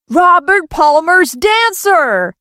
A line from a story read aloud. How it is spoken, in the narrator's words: Bruce finished her sentence excitedly